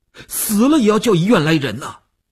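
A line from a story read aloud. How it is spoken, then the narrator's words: Tense, nearly shouting. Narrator (Chinese): 吴长天头皮一紧，他几乎要喊起来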